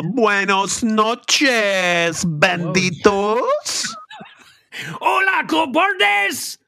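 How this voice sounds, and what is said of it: Put-on Mexican accent. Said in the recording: “it's not cool for you to talk in a Mexican accent because you're not Mexican”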